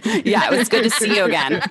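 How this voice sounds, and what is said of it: Mock-serious, formal tone. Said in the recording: “that was my serious voice”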